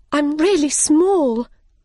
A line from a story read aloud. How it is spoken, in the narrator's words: she cried